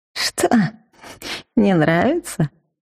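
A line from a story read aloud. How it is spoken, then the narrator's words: Snide old man. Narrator (Russian): ехидно поинтересовался старик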